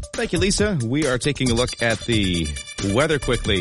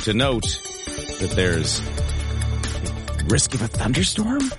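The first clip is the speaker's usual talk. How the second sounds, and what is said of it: Whispered, quiet speech. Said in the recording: “You're going to whisper it? ... just don't want to say it too loudly”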